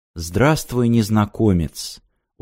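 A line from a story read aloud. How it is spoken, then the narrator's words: Very quiet recording. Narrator (Russian): очень тихо донеслось из диктофона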